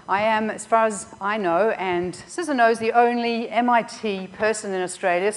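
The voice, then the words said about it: Australian accent. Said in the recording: “I am from Australia, as you can probably hear from my accent.”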